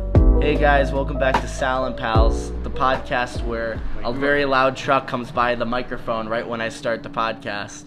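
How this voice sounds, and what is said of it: Slightly nasal, congested voice. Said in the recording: “my voice may be seeming a little nasally, that's just because I'm dealing with seasonal allergies”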